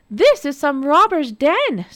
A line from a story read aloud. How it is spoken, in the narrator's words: Snowdrop cried